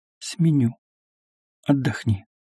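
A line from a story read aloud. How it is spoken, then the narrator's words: Whispered. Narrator (Russian): Софья шепотом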